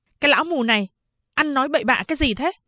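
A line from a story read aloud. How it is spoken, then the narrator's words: Angry shout. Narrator (Vietnamese): Phán đệ giận dữ quát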